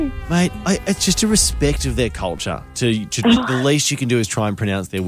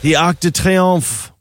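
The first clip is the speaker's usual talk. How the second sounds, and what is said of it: Overdone French accent. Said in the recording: “don't do the accent ... You know you overdo it.”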